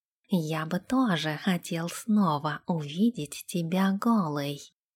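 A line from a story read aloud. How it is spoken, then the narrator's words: Whisper in ear. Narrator (Russian): прошептал он ей на ушко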